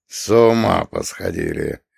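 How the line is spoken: Grumbling. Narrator (Russian): проворчал он

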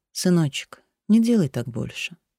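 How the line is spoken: Mother, speaking tenderly. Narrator (Russian): мать ... ласково говорила

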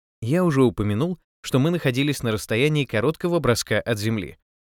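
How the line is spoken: Plain. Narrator (Russian): сказал Эр Дэниел

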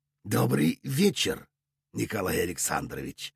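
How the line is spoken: Said softly. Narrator (Russian): мягко произнес Кек

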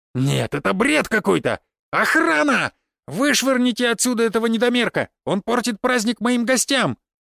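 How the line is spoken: Shrill frightened squeal. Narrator (Russian): взвизгнул Мышкин, побледнев

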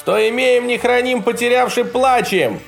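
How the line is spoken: Shouted reply. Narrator (Russian): прокричал он в ответ

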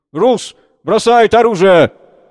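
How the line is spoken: Shouted. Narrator (Russian): Крикнул

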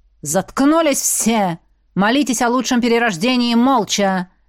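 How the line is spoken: Barked. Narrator (Russian): рявкнул демон

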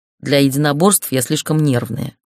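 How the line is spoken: Snorted. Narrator (Russian): фыркнула я

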